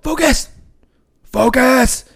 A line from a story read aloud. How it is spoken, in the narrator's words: he'll yell